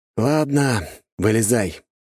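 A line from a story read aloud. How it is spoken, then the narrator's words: Sighing. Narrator (Russian): вздохнул я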